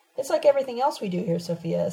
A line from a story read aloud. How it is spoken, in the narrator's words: Sabina answered